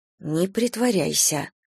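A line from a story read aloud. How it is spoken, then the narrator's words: Whisper. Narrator (Russian): прошептала я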